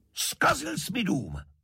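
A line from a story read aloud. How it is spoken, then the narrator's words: Mayor shouting. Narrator (Czech): křikl starosta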